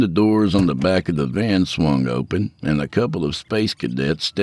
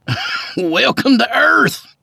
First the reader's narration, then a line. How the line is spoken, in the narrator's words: Skeeter laughed